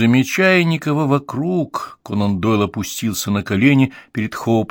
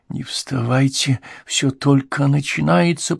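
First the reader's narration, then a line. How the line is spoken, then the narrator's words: Whisper in the ear. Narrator (Russian): прошептал он ей на ухо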